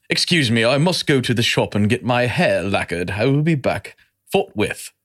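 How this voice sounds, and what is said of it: Put-on English accent, well done. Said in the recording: “did a really good impersonation of an English dude”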